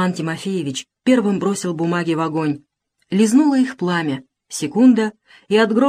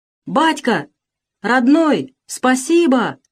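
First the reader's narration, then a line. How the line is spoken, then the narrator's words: Frenzied crowd shouting. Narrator (Russian): кричал исступленно народ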